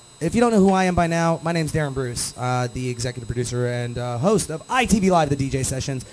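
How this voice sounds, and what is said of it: Radio announcer voice. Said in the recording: “my radio announcer voice kicks in there.”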